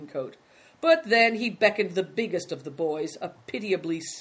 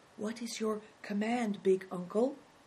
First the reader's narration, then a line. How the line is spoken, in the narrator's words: as he came timidly near, he whispered